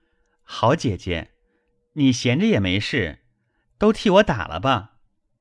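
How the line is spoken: Laughing. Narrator (Chinese): 宝玉笑道

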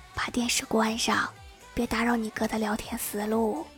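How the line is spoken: Soft quiet voice. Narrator (Chinese): 老妈 轻声轻语的对我说

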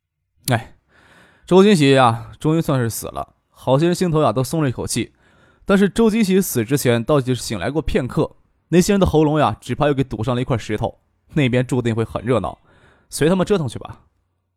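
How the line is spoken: Weary sighing. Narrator (Chinese): 张克头疼，又叹了一口气，说道

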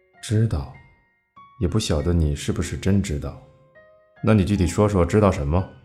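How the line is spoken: Displeased low voice. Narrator (Chinese): 我尽量发出不快的低沉声音

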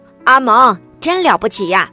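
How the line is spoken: Loud woman. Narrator (Chinese): 收款台的胖阿姨大声说

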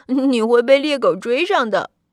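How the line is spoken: Mocking brothers. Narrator (Chinese): 哥哥们取笑他说

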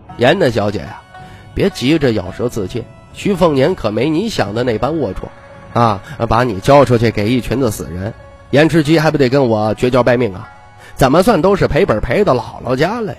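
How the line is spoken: Soft laughing. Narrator (Chinese): 徐凤年轻声笑道

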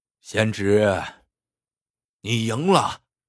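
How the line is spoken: Old man, sighing. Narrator (Chinese): 老者叹息一声，开口道

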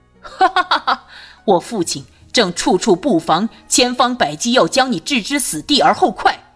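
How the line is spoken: Laughing. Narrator (Chinese): 朱瑜笑了起来

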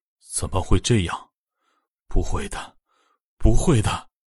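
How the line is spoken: Disbelieving mumble. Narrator (Chinese): 苏鹏不敢相信的嘟囔着

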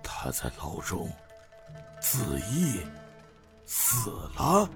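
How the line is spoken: Soft, half-muttered. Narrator (Chinese): 李玉春思索了一会儿，轻声并似言似语的说道

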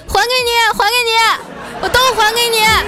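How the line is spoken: Shouting. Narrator (Chinese): 一边亲还一边叫啊，喊着说

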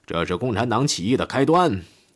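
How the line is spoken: Shouted commands. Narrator (Chinese): 戈林一边喊口号，一边发号施令

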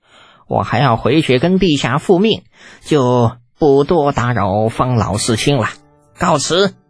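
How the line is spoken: Wry smile. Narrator (Chinese): 林喜苦笑

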